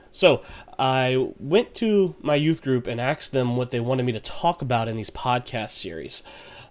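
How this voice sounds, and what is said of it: Slightly congested, weird-sounding voice. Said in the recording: “I just kind of got over a little bit of a sinus problem or a small cold ... clearing my throat a good bit or ... my voice just sounding weird”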